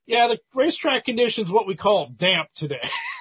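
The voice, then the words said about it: Put-on Southern US accent. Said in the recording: “this southern accent is like ... just that understated southern sense of humor”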